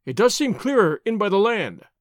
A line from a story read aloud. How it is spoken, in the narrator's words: he cried